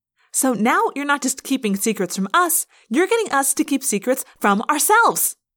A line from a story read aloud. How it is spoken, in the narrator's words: Rachel yelled